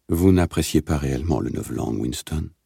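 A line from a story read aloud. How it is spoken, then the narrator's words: Almost sad. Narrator (French): dit presque tristement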